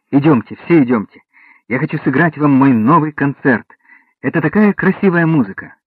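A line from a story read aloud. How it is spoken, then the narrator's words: Cheerful chuckling. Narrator (Russian): Вольфганг весело усмехнулся и сказал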